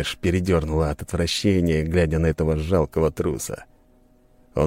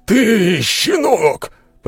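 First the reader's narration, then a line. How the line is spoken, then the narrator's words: Growl. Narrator (Russian): прорычал фон Карлсберг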